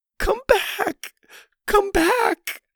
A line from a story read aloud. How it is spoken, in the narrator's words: Lainey continued in her strained voice